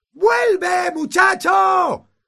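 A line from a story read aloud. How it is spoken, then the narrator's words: Shouted. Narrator (Spanish): gritó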